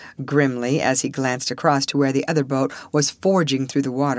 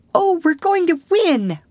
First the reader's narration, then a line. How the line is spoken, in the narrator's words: cried Alice in delight